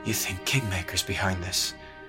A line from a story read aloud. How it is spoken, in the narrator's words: murmur